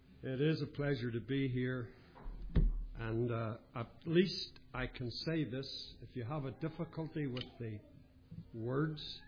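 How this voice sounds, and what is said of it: Northern Irish accent. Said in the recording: “I'm not the one with the accent. You're the guys with the accents ... Northern Ireland English ... coming from Northern Ireland”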